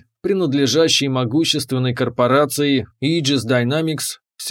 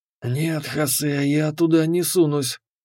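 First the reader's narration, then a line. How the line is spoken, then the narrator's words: Hissed. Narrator (Russian): прошипел Миллер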